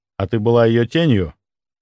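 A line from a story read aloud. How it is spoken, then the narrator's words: Gentle suggestion. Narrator (Russian): мягко подсказал я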